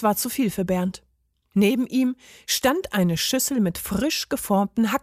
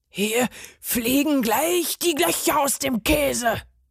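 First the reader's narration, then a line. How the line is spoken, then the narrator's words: Furious roar. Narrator (German): brüllte der Parmesan fuchsteufelswild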